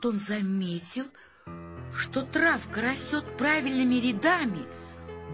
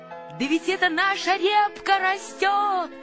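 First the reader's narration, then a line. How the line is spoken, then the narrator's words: Shout. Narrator (Russian): закричал Павлик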